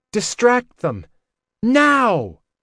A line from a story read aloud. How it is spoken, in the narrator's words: shouted